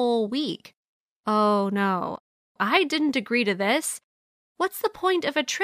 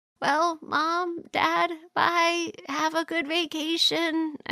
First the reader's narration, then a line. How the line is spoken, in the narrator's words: I said in a weak, fading voice to my parents as they left